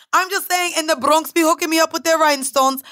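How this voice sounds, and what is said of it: Clumsy Jamaican accent, sounds Irish. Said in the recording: “What the hell was that? ... This is why I don't do accents. ... You sound like I'm from fucking Europe ... I thought that was Jamaican. ... when you're trying to do a Jamaican accent, sometimes you sound like you're from Ireland”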